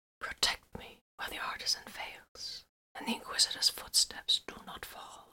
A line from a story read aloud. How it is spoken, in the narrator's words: Vox whispered, and echoes of his words sprang up in the room